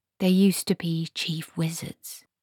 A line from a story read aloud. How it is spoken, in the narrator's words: whispered Esk